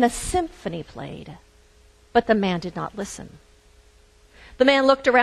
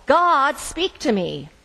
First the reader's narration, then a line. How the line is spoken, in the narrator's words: The man did not hear, so he yelled